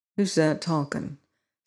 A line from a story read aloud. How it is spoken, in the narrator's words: said one of the men near me in a low voice